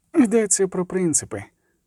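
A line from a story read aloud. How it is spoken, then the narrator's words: Calm explanation. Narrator (Ukrainian): спокійно пояснив Регіс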